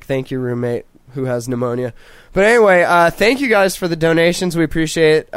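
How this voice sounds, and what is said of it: Sick-sounding voice. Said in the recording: “I sound silly because I'm still sick.”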